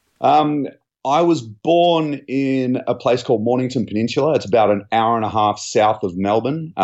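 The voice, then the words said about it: Non-Californian accent. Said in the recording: “from your accent, you are not a native Californian”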